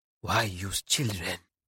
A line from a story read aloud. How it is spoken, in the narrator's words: He whispers